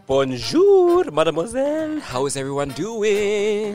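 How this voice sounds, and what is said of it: Put-on French accent. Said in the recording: “has a French accent right now”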